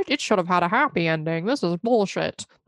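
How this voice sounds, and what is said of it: Imitates another person's voice. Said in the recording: “my Donald Trump impression.”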